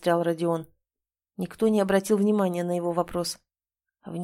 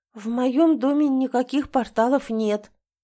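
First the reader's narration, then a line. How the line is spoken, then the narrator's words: Uncertain. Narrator (Russian): неуверенно произнесла Марина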